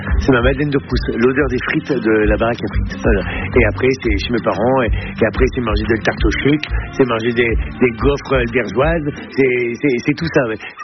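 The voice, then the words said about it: Northern French regional accent. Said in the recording (French): “n'a jamais perdu ni son accent, ni ses traditions du Nord ... cet accent, pour moi, c'est une carte postale ... avec cet accent, on sait que je ne viens pas de là où je suis, on sait que je viens du Nord”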